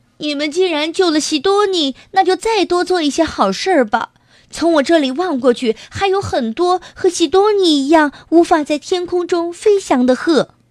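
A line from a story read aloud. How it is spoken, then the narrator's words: Straining shout. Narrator (Chinese): 姑斯扯着嗓子喊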